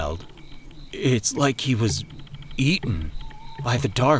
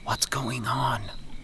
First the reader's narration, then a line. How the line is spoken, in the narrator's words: Jimmy whispered